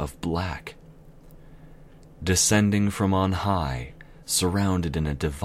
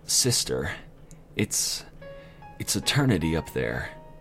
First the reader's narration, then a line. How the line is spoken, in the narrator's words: whispered quietly under her breath